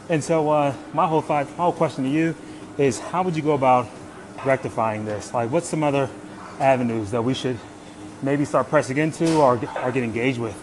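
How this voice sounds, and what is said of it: Slightly out of breath. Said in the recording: “I'm doing my cardio, so I'm a little out of breath.”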